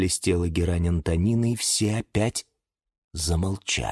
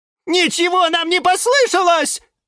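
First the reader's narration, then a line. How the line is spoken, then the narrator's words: Plants shouting in unison. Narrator (Russian): закричали в один голос фикусы Вениамин и Валентин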